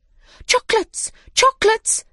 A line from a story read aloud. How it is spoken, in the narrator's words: they cried